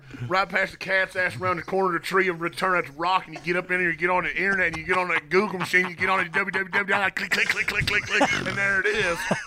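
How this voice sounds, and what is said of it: Exaggerated put-on Southern accent. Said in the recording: “Bron's Southern accent”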